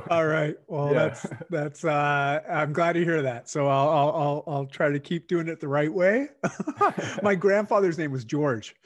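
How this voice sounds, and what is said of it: Canadian accent. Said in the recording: “I am Canadian and, my accent, comes through at times”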